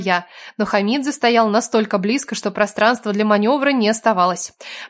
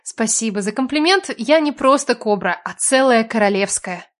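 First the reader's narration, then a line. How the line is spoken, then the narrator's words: Snide hiss. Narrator (Russian): ехидно прошипела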